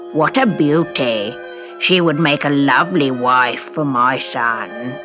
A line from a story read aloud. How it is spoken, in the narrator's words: croaked the toad